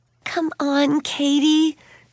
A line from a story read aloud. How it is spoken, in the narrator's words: Suzanne pleaded